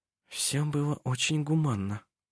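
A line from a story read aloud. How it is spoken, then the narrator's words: Whispered. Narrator (Russian): прошептала она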